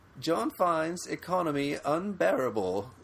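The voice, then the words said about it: Put-on English accent. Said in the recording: “That's an excellent English accent”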